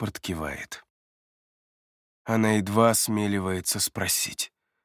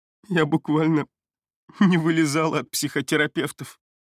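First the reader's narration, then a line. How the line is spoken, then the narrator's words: Laughing through tears. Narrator (Russian): говорит смеясь сквозь слезы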